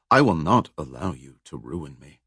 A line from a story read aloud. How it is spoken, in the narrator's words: she said coldly